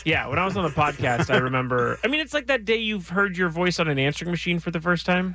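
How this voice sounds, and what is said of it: Kermit-like puppet-sounding voice. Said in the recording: “you have embraced your Kermity voice ... do I have a hand up my butt? Like, am I an actual puppet?”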